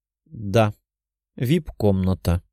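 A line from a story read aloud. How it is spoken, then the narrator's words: Sad. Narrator (Russian): грустно сказала Лиза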